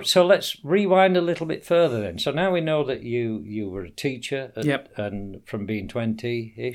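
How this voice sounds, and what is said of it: Sheffield English accent. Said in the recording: “now you're not Sheffield... Anybody listening can tell the difference between my accent and yours.”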